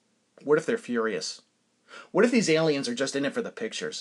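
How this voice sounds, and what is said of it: Usual voice. Nothing is said of it.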